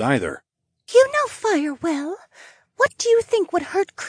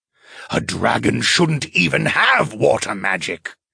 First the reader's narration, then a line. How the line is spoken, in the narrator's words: the spirit spat out